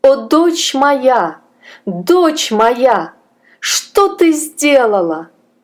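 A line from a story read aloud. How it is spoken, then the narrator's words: Desperate scream. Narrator (Russian): Госпожа Сюзанна закричала отчаянным голосом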